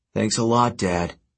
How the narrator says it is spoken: he grumbled

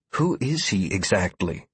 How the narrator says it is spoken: Sierra whispered, lowering her voice as footsteps began echoing through the hallway outside

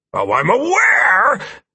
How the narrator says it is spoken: Hito croaked through clenched teeth

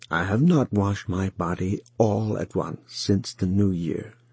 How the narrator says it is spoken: said Wang Lung in a low voice

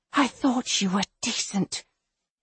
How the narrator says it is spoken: Lyra whispers

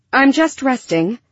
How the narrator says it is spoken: Lyra blurted out

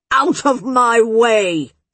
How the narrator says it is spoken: Zan shouted, her voice rumbling through the rocks

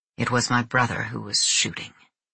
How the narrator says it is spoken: He had murmured weakly

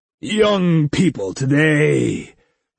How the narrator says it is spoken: boomed a jolly male voice

